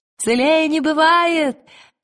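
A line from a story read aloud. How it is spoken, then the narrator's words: Shouted reply. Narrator (Russian): крикнула она в ответ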